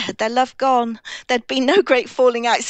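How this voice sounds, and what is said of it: Dramatic audiobook narrator voice. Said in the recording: “That's my narrator voice”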